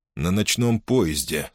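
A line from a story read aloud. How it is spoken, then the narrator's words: Plain. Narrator (Russian): сказал я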